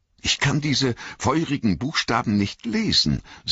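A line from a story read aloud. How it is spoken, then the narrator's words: Trembling voice. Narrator (German): sagte mit bebender Stimme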